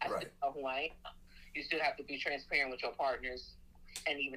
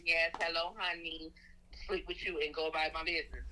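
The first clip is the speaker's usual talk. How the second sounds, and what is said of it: Put-on accent. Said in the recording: “Put on a little accent.”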